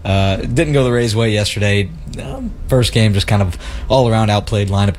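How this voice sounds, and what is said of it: Worn, tired-sounding voice. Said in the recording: “As you can hear it in my voice, it may have taken a toll on me.”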